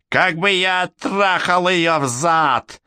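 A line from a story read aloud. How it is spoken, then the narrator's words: Old man's hoarse laughter. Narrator (Russian): Старик хрипло расхохотался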